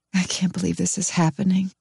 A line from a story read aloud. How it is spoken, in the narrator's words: say miserably